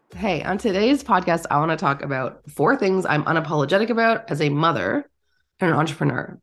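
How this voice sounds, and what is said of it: Nasal, congested sick voice. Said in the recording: “you can probably hear it in my voice. I don't sound great ... when you're not feeling well ... nasally and all”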